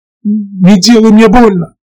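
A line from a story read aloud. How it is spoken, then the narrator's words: Pleading. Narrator (Russian): взмолился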